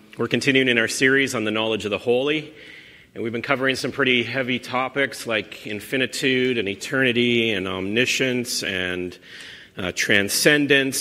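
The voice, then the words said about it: Altered, congested voice. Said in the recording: “I've had a bit of a cold this week, so my voice is a little different.”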